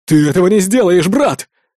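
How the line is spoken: Exclamation. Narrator (Russian): воскликнул Кучерявый

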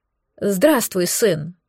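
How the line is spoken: Trembling voice. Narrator (Russian): произнесла Шантара дрогнувшим голосом

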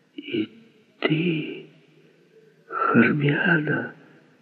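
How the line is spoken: Whisper. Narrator (Russian): Клеопатра прошептала

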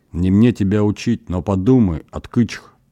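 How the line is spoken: Fervent whisper. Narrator (Russian): горячо шептал Эмраин

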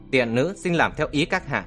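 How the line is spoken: Smiling. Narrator (Vietnamese): Con tỷ nữ mỉm cười

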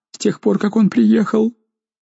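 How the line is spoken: Babbling. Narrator (Russian): Розали пролепетала

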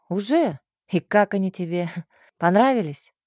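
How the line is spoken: Smirking snort. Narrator (Russian): хмыкнул он

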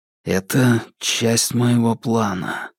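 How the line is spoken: Breathless exhale. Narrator (Russian): выдохнул я

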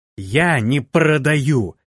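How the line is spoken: Beastly growl. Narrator (Russian): зверей рычала девушка

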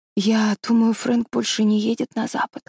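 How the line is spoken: Whispered reply. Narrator (Russian): прошептала Мэри Голд в ответ

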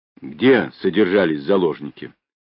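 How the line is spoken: Sudden, sharp, quick question. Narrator (Russian): вдруг резко и быстро спросил он

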